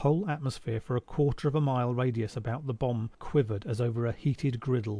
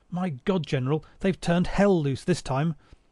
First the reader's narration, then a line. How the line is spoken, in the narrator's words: someone cried